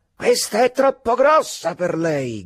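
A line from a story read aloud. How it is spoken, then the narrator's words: Shouted. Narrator (Italian): gridò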